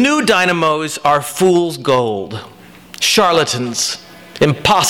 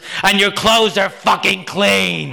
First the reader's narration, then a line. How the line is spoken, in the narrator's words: it bellowed in no uncertain terms